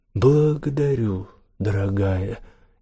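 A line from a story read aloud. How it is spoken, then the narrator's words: Quiet drawl. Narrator (Russian): негромко протянула Девора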